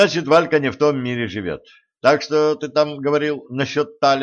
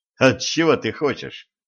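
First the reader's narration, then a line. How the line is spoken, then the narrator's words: Snorting remark. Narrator (Russian): хмыкнул Денис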